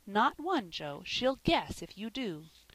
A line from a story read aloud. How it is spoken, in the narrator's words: said Polly firmly